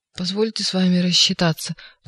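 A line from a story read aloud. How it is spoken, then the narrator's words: Crushed whining. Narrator (Russian): проскулил убитый Степа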